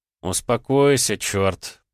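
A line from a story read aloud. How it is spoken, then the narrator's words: Mutter. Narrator (Russian): пробормотал я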